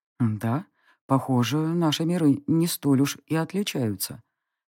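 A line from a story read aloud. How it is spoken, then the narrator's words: Werewolf's quiet aside in ear. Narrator (Russian): тихо заметил мне на ухо оборотень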